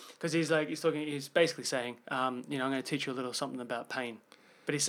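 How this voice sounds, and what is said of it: Usual voice. Nothing is said of it.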